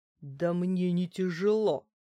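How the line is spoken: Growl. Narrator (Russian): рыкнула

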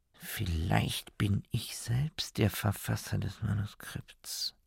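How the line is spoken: Repeated murmuring. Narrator (German): Der Doktor murmelte immer wieder

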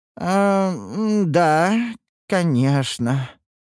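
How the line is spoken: Disappointed drawl. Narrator (Russian): разочарованно протянул Гилберт, рассчитывающий на иной исход

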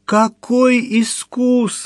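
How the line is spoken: Pleading. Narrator (Russian): взмолился Митя

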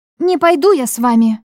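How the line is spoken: Defiant exclamation. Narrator (Russian): воскликнула непокорно

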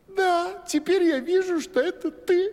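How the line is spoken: Laughing young woman. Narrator (Russian): засмеялась царевна

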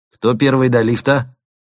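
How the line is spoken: Cheerful tossed remark. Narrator (Russian): весело бросив племянникам

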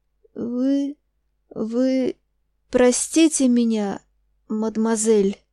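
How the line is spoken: Terrible hoarse voice. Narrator (Russian): начал снова граф, все тем же ужасным хриплым голосом

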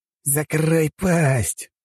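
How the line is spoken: Hiss. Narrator (Russian): прошипел эквадорец

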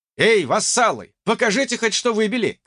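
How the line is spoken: Shouted. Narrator (Russian): крикнул

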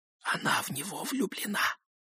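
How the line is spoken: Whisper. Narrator (Russian): прошептала Кармен

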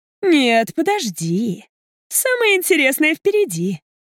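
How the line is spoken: Triumphant declaration. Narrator (Russian): триумфальным голосом заявляет она

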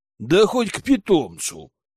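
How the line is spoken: Snorting. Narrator (Russian): фыркнула она

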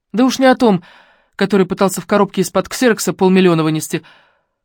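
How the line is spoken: Snort. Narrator (Russian): фыркнула Алена

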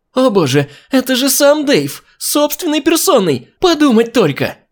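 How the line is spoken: Woman exclaiming. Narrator (Russian): Воскликнула проходящая мимо женщина

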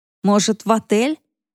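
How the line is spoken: Neutral tone. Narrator (Russian): Нейтральным тоном предложил Роман

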